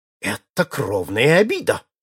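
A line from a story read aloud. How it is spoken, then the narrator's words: Heated exclamation. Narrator (Russian): воскликнул запальчиво лорд Мьюсидент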